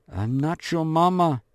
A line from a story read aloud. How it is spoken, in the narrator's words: hisses Werner